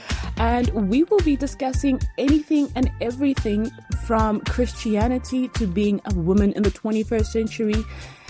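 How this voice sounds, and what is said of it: French accent. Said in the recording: “with the French accent.”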